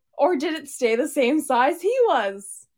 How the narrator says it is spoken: He laughed to himself

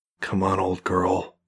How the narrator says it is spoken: whispered

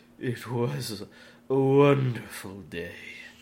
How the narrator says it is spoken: he said, in a somewhat ominous voice

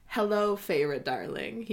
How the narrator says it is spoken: he purrs

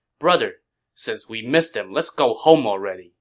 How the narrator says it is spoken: Zhang Fei said impatiently

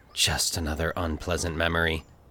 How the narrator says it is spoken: he sighed

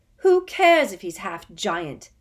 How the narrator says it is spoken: Harry shouted

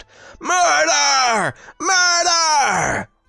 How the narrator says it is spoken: all while continuing to shout

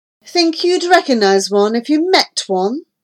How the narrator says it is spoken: Granger sneered

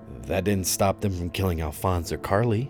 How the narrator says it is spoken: I spat bitterly

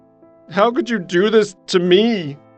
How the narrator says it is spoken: said, and began sobbing

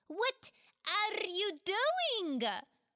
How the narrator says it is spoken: Khawler screamed at them

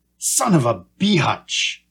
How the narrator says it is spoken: Sammy Joe rasped

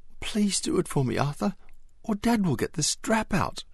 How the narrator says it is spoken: she begged

